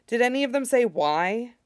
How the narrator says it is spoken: Val sighs

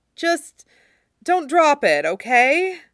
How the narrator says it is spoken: Nami pleads, ever the peacekeeper on the ship

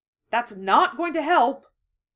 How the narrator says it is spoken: Harry exclaimed

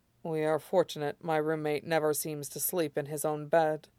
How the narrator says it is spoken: Lan Wangji mumbles, slightly rueful

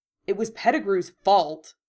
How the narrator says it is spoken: he said angrily

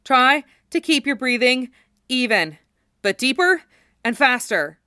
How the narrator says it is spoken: Cloud called out to them, his words broken up by the stride of the chocobo

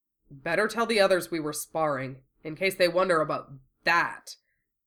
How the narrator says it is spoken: Wufei grumbled

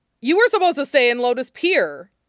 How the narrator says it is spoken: Jiang Cheng brightened immediately upon seeing her, then blurted

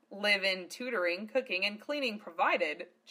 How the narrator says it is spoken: chuckled Lena

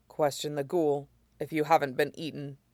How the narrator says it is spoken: he shot down coldly

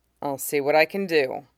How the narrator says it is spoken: Cody murmurs

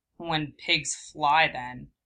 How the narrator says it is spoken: Sasuke snorted

